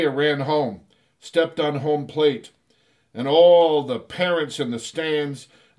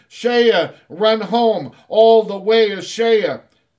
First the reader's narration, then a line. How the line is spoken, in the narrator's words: the boys from both teams ran behind him screaming